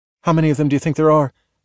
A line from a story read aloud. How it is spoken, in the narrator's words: she asked, glancing nervously